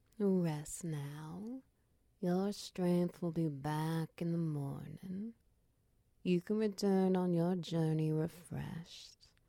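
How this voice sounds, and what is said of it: Soft calming soothing voice. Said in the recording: “My voice is a calming sound as you start to drift off.”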